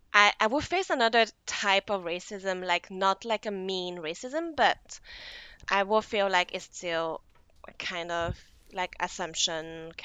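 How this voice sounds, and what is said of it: English with French accent. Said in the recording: “your French accent”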